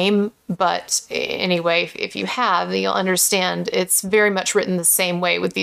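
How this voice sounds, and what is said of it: Usual voice. Nothing is said of it.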